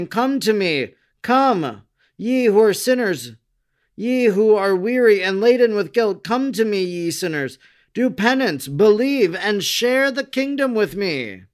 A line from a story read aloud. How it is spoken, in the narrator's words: exclaiming